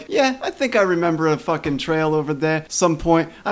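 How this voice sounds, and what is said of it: Exaggerated put-on hillbilly Brooklyn accent. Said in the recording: “I don't know why I'm doing this stupid retarded accent ... He's one of them hillbillies from Brooklyn”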